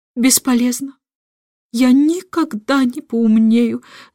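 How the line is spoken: Muffled groan. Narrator (Russian): застонал король, уткнувшись лицом в горностаевую мантию

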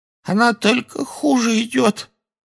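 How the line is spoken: Hoarse voice. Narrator (Russian): хрипло сказала Кэти

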